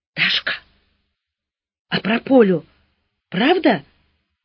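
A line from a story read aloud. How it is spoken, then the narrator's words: Wheezing broken question. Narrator (Russian): свистящим прерывистым голосом спросила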